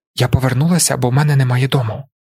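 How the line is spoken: Hiss. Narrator (Ukrainian): просичала вона

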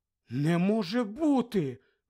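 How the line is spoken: Shocked exclamation. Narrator (Ukrainian): вражено вигукнула Герміона

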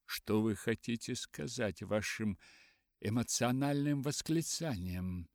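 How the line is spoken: Plain. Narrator (Russian): спросил мистер Беннет

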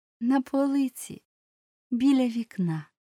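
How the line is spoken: Plain. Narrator (Ukrainian): відповіла вона

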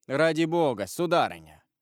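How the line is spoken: Firm, rather dry. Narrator (Russian): отвечал королевский прокурор с твердостью, даже несколько сухо

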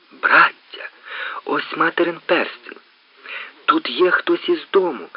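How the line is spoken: Joyful exclamation, eldest brother. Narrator (Ukrainian): радісно вигукнув найстарший брат

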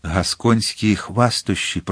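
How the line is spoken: Nobleman's whisper. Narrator (Ukrainian): прошепотів дворянин

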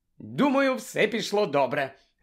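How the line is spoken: Joyful. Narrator (Ukrainian): радісно сказала Герміона

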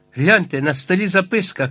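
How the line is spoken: Shout. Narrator (Ukrainian): крикнув Герберт

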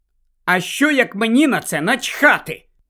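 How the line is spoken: Angry question. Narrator (Ukrainian): сердито запитала Джинні

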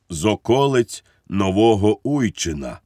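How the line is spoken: Sad voice, priest. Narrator (Ukrainian): смутним голосом відізвався цісарсько-королівський панотець Мартінець

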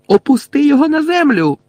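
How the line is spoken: Angry shout, suppressed smile. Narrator (Ukrainian): Лілі, розлючене обличчя якої ледь-ледь пересмикнулося, ніби вона й сама готова була всміхнутися, крикнула

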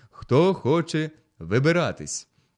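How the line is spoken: Loud question. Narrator (Ukrainian): Предводитель голосно запитав

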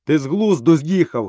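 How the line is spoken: Menacing shout. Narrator (Ukrainian): грізно закричав Бульдео

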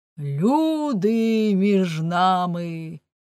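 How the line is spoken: Shouted. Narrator (Ukrainian): крикнув він

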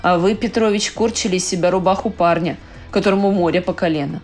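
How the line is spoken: Sad but firm. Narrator (Russian): грустно, но твердо молвил он

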